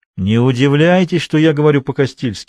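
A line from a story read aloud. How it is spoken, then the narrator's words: Laughing. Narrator (Russian): рассмеялся хозяин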